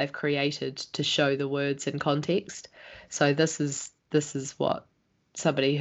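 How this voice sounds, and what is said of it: Usual voice. Nothing is said of it.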